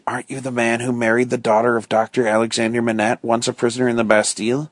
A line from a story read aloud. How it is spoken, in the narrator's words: Defarge whispered